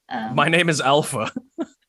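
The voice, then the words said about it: Put-on Kiwi accent, sounds British. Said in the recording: “Do your Kiwi accent then ... That still sounds like he's somewhere from the UK.”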